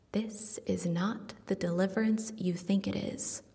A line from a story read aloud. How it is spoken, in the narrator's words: whispers